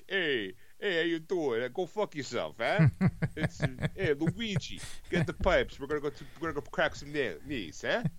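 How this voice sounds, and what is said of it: Exaggerated Italian-American accent. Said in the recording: “kind of like an Italian impression ... an accent ... kind of like a "It's me, a Mario,"”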